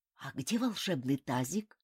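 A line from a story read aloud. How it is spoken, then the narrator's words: Whispered question. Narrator (Russian): шепотом спросил Ким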